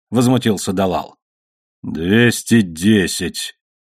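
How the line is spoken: Displeased voice. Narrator (Russian): недовольным голосом сказал Хамед

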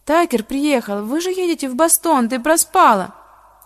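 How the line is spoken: Groaning. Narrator (Russian): застонала

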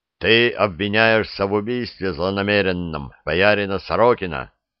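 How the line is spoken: Menacing announcement. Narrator (Russian): грозно объявил подьячий

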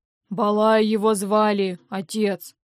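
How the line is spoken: Deep-voiced child. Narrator (Russian): пробасил из угла малыш

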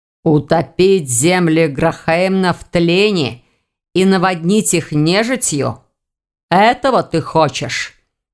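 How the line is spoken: Growling. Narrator (Russian): прорычал Элгар

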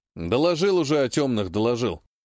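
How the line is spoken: Captain grumbling. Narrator (Russian): проворчал капитан

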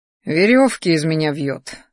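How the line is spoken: Snorting. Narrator (Russian): фыркнул Кер

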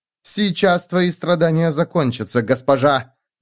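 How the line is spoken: Barked. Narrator (Russian): рявкнула она

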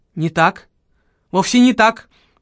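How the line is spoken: Cried out. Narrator (Russian): вскрикнул доктор

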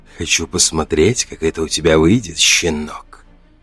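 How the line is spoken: Hungrily curious whisper. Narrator (Russian): выдохнул, и в его шепоте слышалось искреннее голодное любопытство

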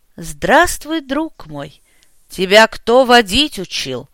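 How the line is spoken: Growled. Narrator (Russian): прорычал я

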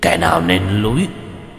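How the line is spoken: Sharp shout. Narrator (Vietnamese): quát lên một tiếng

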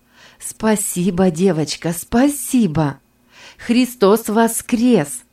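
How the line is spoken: Joyful exclamation. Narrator (Russian): радостно воскликнула я

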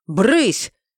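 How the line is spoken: Exasperated bark. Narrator (Russian): гаркнул, не выдержав

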